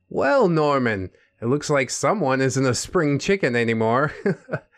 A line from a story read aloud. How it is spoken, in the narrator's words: he said with a chuckle